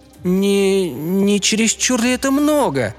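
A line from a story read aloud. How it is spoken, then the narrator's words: Slightly frightened question. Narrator (Russian): слегка испуганно спросила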